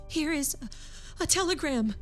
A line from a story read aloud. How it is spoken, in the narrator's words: she gasped